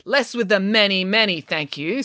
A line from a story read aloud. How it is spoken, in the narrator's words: snapped Arthur